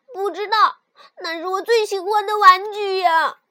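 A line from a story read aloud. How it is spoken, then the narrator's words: Loud. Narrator (Chinese): 尤里大声说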